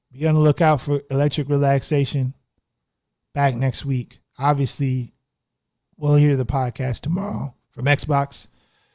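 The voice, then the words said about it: Strained, hoarse voice. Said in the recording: “Losing my voice.”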